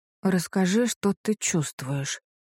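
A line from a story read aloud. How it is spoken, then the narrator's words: Mumble. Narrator (Russian): бормочу я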